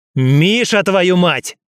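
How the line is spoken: Bellowed. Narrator (Russian): Рявкнул я

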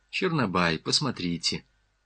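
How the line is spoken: Calm. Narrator (Russian): спокойно сказала Галина Михайловна

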